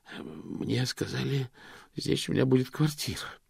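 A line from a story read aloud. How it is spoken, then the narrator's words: Wheezing. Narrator (Russian): просипел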